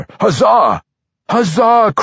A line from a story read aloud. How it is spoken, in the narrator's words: cried the others